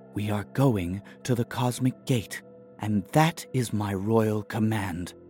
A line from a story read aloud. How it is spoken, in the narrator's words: Attell said quietly